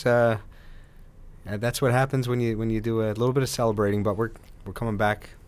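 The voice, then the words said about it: Hoarse voice. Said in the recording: “laryngitis? ... Yeah, a little bit of laryngitis.”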